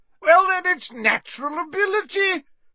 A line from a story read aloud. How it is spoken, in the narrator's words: shouted Slughorn